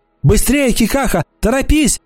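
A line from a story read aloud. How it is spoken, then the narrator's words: Shout. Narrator (Russian): закричала она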